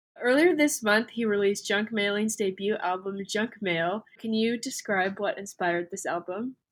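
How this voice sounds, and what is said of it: Nasal, congested voice. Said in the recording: “I sound a bit nasally ... My allergies are really bad.”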